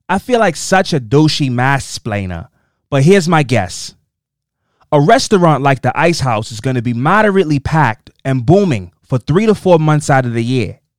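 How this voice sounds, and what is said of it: Attempted Boston accent, probably poor. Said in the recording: “I'm going to do my best to read this in a Boston accent ... I'm going to do my best to do a Boston accent. It's probably terrible ... I'm trying out some accents.”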